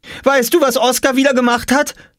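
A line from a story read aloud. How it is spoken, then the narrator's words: Called out. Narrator (German): rief Jule noch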